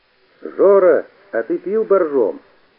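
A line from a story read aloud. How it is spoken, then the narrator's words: Shout from audience. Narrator (Russian): Из зала закричали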